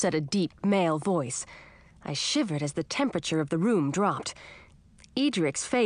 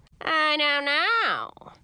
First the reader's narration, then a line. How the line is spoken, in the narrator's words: said, mocking me in a shrill falsetto